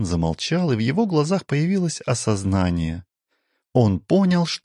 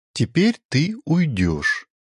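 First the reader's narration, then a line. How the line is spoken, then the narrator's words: Plain. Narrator (Russian): ответил Керод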